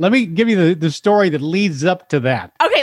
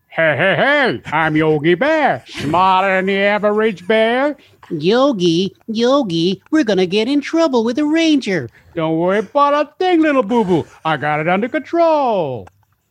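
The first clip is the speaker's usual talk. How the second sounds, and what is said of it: Cartoon character voices. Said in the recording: “doing cartoon voices ... impersonation”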